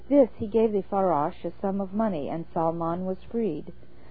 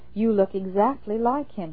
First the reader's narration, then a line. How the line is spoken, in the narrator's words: exclaimed